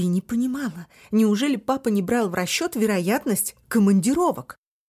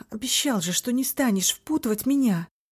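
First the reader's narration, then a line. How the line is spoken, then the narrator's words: Sighing. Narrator (Russian): Вздохнула Танби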